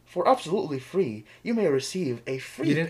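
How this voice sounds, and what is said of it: Put-on radio announcer voice. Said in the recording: “How's my radio voice?”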